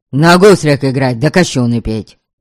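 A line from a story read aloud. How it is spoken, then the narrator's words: Unusually angry reply. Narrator (Russian): Непривычно сердито ответил он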